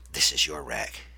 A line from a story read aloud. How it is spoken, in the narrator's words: he said in a low voice